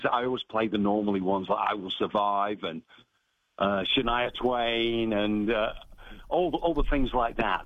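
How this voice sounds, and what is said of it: Mancunian English accent. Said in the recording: “in your Mancurian accent, which just tickles ... your inflections on the G, I love it”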